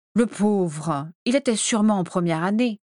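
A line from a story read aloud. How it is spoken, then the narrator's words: Gentle scolding. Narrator (French): le gronda gentiment Narcissa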